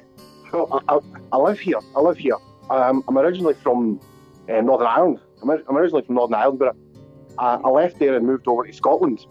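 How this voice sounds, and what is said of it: Scottish-sounding accent. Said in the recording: “just from your accent, I'm you're saying the SNP, so are you calling from Scotland?”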